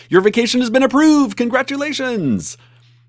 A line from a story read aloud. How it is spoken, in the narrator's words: shout